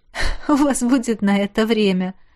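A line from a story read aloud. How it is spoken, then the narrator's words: Laughing. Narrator (Russian): рассмеялась я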